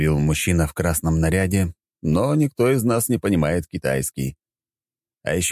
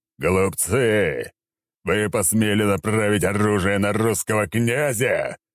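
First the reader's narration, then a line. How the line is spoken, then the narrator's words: Menacing, grandiose declaration. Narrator (Russian): Весьма грозно и пафосно произнес я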